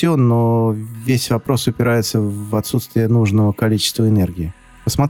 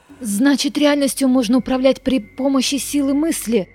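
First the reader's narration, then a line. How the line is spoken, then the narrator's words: Exclaimed. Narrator (Russian): воскликнула Глория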